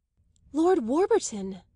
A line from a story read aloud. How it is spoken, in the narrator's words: Isabel exclaimed